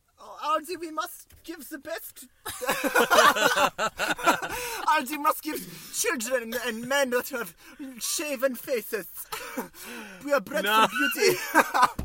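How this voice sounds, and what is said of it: Terrible put-on accent. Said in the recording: “I will do a million accents tonight ... it's not the terrible accent”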